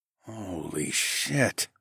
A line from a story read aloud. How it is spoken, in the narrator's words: I groaned